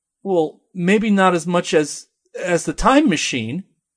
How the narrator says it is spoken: he stutters

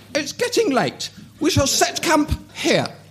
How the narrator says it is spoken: exclaimed Brienne

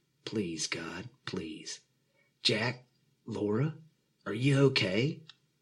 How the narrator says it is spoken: Pastor James's voice echoed from the main speakers

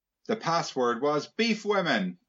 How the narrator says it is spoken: Hermione cried

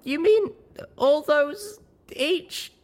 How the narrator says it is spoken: I squeaked

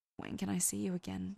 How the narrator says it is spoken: Dean whispered

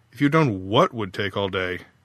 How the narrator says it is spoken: Faith sighed

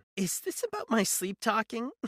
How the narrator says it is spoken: She laughed, a hollow, lifeless sound

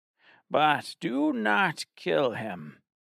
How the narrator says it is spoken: she cackled

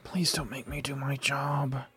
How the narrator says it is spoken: I muttered under my breath

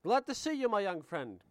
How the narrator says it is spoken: he exclaimed in his melodious voice

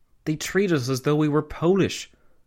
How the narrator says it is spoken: Karl Renner, the Austrian Chancellor, had exclaimed

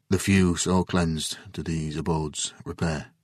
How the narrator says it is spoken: he finally said in a quiet voice

